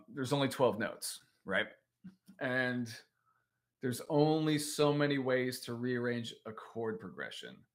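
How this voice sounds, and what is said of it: American accent. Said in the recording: “I'm in America, as you can tell by my accent.”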